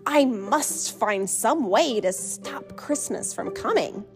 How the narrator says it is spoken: he growled

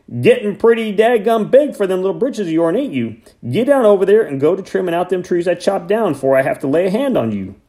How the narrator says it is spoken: from right behind me, Hank shouted

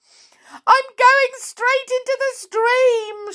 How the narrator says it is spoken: she squealed

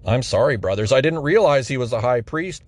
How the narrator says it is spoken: Paul replied

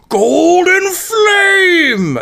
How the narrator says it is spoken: the voice just yells

